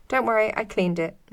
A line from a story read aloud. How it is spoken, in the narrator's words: said, interrupting my thought, laughing